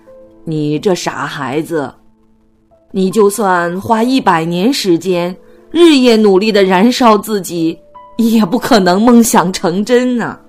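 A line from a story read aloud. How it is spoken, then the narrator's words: Amused laughing. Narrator (Chinese): 农夫扑哧一声笑了，摇摇头说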